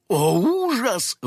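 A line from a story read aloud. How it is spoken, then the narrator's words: Old woman exclaiming. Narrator (Russian): воскликнула старушка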